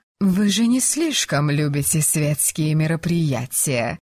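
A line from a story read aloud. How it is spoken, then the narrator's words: Purring. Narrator (Russian): Продолжала мурлыкать это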